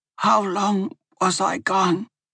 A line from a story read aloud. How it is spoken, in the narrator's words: Bryn asked, her voice rough but working again